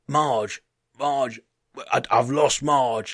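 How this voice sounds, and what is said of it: Put-on German accent. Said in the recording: “it was in a German accent”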